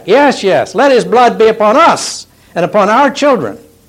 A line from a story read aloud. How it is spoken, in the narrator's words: they scream back